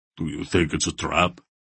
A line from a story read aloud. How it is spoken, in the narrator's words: Barak rumbled